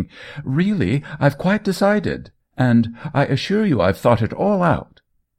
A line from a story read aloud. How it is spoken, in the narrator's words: cried Spencer Coyle